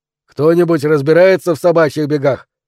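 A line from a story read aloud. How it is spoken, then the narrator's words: Bursting-in shout. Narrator (Russian): закричал Роберт, как только ворвался в дверь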